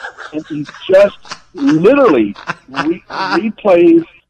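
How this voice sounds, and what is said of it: Usual voice. Nothing is said of it.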